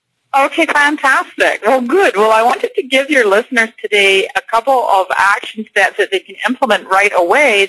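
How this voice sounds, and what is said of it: Scottish accent. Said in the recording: “Scottish by heritage. You'll love her accent.”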